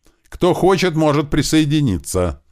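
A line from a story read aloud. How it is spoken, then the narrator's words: Said loudly. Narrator (Russian): громко сказал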